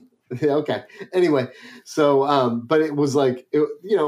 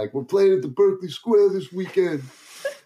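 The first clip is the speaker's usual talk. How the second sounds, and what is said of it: Imitated Albany accent. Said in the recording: “how did you get a Brooklyn accent, bro? ... That is an Albany accent.”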